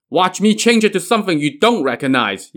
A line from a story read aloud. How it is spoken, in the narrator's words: Yan Shou shouted back